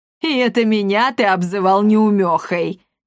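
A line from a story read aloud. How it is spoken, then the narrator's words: Woman laughing. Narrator (Russian): хохотнула комендантша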